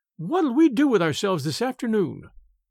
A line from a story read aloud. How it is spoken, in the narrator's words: cried Daisy